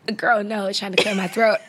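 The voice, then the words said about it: Raspy, hoarse voice. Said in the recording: “my voice is a little raspy. I'm hoarse.”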